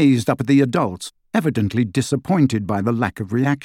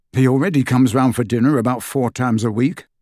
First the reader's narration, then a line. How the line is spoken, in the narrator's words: said Harry